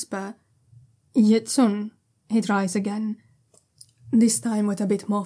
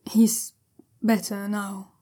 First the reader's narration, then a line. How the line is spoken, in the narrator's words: he says slowly, and the conviction there isn't exactly bowling Jiaolan over